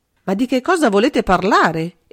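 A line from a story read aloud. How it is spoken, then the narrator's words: Bewildered involuntary exclamation. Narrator (Italian): esclamò suo malgrado Bonard, comprendendo sempre meno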